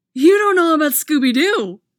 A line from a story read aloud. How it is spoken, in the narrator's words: he exclaims